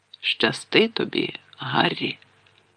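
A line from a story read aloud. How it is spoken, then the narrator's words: Quiet. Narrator (Ukrainian): тихо промовив він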